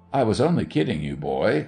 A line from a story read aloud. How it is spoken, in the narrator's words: I laughed